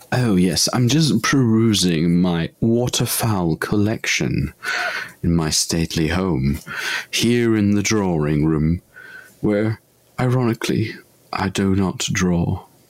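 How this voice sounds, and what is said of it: Put-on posh accent. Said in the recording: “in a posh accent”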